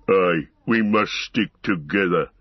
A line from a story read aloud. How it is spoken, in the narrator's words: growled Ugluk